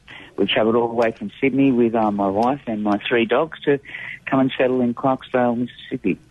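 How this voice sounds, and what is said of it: Australian accent. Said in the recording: “I think I detect an accent ... I'm from Sydney, Australia.”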